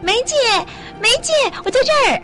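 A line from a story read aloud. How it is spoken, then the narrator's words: Woman's surprised, happy shout. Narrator (Chinese): 那个在人群中抱着婴儿的女人惊讶地，也开心地喊叫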